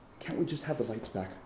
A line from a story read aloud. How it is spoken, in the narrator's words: I replied miserably